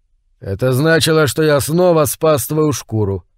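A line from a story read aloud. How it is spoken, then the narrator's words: Grumbling. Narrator (Russian): проворчал Имаро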